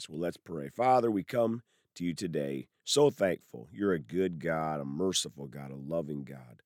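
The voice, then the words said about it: Voice sounds a little off. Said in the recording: “apologize for my voice today. It's a little off”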